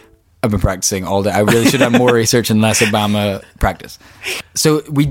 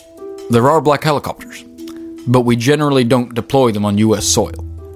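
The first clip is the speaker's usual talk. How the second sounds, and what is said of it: Barack Obama impression. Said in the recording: “That was a great Obama impression as well. Stellar.”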